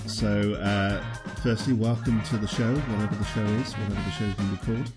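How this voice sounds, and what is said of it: British accent. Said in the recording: “As the accent may suggest, I'm based in the UK.”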